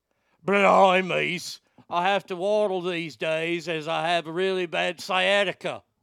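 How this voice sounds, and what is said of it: Imitates another person's voice. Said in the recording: “my perfect impression”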